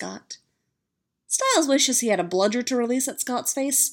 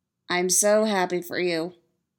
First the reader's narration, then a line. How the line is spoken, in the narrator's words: Styles says, flatly